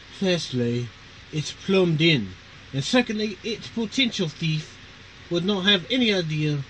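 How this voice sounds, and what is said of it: Poor put-on British accent. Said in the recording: “I got to do the British accent. I'm probably not going to do it good ... I'm butchering it”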